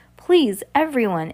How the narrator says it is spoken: Ishmael cried again with a nervous tug of his beard

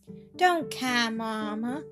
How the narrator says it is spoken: cooed little Percy

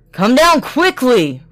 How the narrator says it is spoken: roared Bluebeard

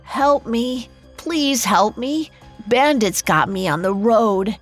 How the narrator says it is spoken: let out a long moan and called out

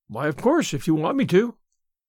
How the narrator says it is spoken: assented cheerfully

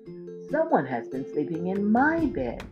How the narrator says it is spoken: squealed Baby Bear

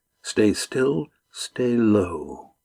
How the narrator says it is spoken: Astrea said quietly

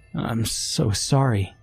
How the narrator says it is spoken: she croaked

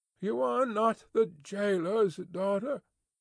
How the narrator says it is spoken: she sighed

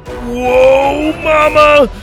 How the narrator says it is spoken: Doug yelled

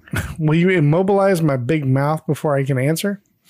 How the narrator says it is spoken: Marcia laughs

